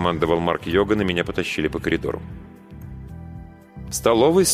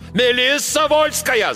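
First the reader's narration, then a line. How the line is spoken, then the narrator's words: Yelled loudly. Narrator (Russian): заорал капитан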